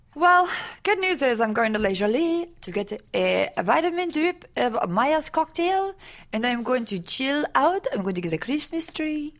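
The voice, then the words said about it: Put-on French-sounding accent. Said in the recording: “That's not a British accent at all. ... That's not a terrible French accent, though.”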